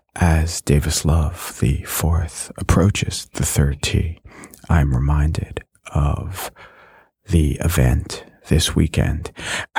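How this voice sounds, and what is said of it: Golf commentator voice. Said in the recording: “Do you have a golf voice? Can you do a golf voice?”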